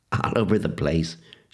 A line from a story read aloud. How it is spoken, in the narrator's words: said, giggling